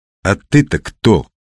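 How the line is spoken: Sharp question. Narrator (Russian): резко спросил Мухин

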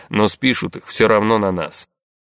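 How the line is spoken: Muttering. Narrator (Russian): буркнул Расмус

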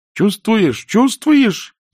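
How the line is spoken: Shrill princess squeal. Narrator (Russian): завизжала принцесса

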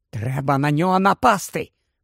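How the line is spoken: Whisper. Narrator (Ukrainian): прошепотів він

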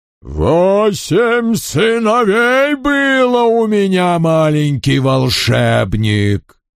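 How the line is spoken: Mighty, withering old dragon voice. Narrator (Russian): сказал старый дракон иссушающим душу могучим голосом

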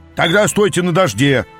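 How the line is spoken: Barked. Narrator (Russian): рявкнул хозяин

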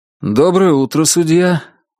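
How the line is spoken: Forced cheerful tone. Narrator (Russian): Он старался, чтобы голос его звучал бодро

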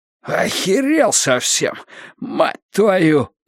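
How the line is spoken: Wheezing. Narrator (Russian): просипел Уиттекер

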